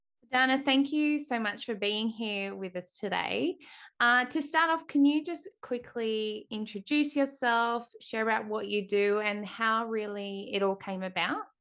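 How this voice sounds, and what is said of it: Australian accent. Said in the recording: “I love speaking to other Australians ... that little accent”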